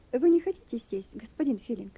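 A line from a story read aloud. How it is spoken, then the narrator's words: Plain. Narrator (Russian): спросила теперь она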